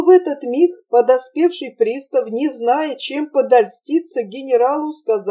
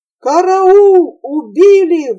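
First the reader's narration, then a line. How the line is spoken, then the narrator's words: Bear's roar. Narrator (Russian): взревел медведь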